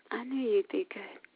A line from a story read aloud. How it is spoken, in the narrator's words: she whispered